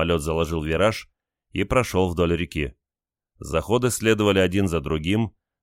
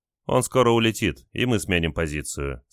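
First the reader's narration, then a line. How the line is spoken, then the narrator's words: Calm reply. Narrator (Russian): спокойно ответил радист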